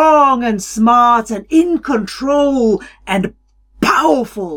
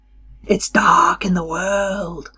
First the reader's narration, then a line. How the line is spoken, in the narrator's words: Qualo whispered